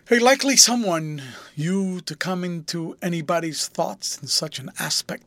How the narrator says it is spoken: he exclaimed

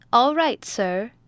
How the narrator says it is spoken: answered Harry cheerfully

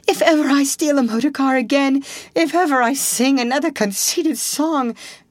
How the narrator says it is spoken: came up breathless and spluttering

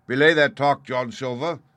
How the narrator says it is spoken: he said

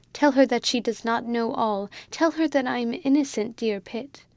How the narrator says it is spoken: she whimpered out

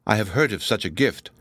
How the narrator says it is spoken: responded the sculptor, gravely

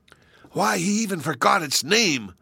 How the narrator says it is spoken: whispered Jehoshaphat

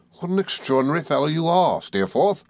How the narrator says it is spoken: I exclaimed

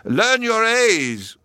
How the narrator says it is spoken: he shouted

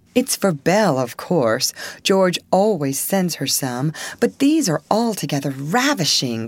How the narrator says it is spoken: cried Annie, with a great sniff

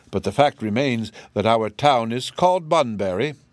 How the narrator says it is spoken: Bunn rather stiffly

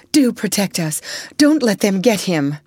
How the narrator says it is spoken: went on, turning wildly

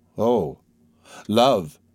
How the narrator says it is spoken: said she, and her voice trembled

